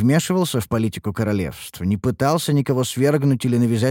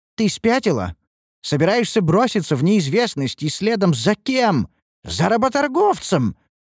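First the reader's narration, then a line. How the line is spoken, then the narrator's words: Loud ranting aunt. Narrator (Russian): громко разорялась тетя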